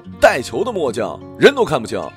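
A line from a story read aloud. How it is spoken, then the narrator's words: Roaring. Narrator (Chinese): 我就吼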